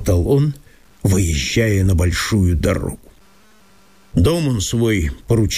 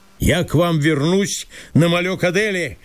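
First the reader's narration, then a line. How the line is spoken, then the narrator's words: Farewell shout. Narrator (Russian): крикнул он им на прощание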